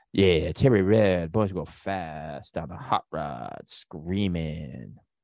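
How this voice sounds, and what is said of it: Impression of Steve Bro. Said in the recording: “This is my impression of Steve Bro.”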